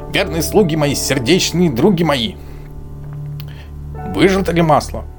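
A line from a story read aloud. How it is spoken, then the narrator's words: Shout, old witch. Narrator (Russian): Баба-Яга крикнула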